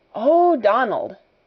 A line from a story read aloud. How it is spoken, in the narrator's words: Janet exclaimed alarmedly